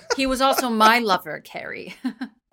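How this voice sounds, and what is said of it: Imitates a TV character's voice. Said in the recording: “That was a pretty good impression of Gloria”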